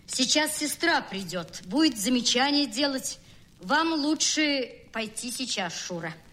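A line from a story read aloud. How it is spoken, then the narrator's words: Loud, angry, cracking voice. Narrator (Russian): рассердившись на свой сорвавшийся голос, и громко сказал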